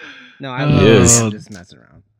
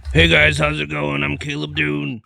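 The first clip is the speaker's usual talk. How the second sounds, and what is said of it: Imitates another person's voice. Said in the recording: “my Caleb Doom impression”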